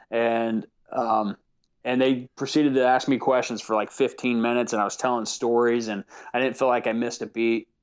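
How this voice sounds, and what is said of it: Natural Southern US accent. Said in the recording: “my natural accent, which is much more Southern.”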